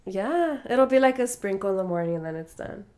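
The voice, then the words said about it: Slightly congested voice. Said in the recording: “excuse my voice if I sound a little congested”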